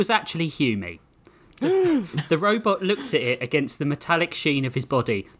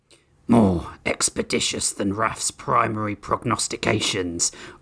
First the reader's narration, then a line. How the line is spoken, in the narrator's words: Oryx growled